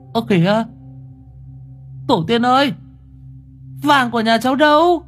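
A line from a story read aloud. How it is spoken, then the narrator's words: Shrieking. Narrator (Vietnamese): Ánh rú lên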